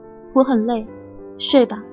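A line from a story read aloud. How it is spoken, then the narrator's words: Cold. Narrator (Chinese): 我冷冷推开他说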